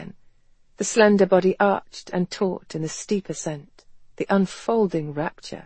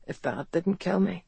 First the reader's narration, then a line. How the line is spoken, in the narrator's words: he couldn't resist murmuring